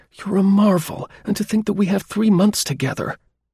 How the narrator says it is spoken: she exclaimed enthusiastically

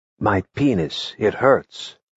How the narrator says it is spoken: The student, with a grimace, ... whispered

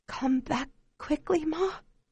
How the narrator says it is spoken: whispers

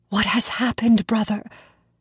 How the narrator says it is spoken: My heart bleeding with pity, I whispered

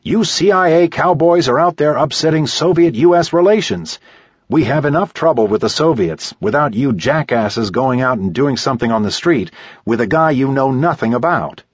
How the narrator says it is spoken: He yells at the office chief

